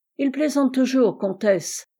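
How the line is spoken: Plain. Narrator (French): répondit Silvio

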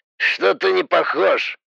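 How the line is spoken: Snorting voice. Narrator (Russian): хмыкнул голос

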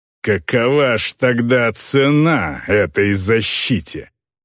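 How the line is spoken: Hissing. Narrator (Russian): прошипел он

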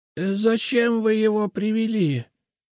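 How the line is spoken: Hoarse question. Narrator (Russian): Хриплым голосом спросила она

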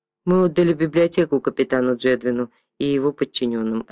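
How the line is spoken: Plain. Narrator (Russian): ответил Беатрис

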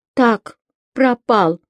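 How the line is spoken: Sobbing. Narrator (Russian): Она всхлипнула

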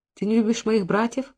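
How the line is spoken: Anxious whisper. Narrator (Russian): прошептала Сара с тревогой

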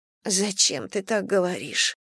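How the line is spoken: Muffled mutter. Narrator (Russian): глухо пробормотала

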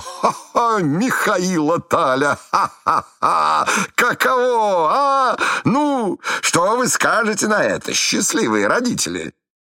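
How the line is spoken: Prolonged laughing. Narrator (Russian): будет смеяться еще полчаса

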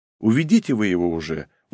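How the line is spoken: Tired. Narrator (Russian): устало сказала Унге

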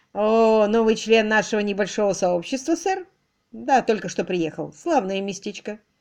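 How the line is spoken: Joyless laugh. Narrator (Russian): Долли невесело хохотнула

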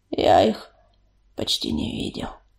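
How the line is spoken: Hoarse croak. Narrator (Russian): прохрипел огнезвезд

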